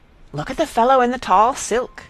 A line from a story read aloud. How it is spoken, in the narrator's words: all agog, Miss Douce said eagerly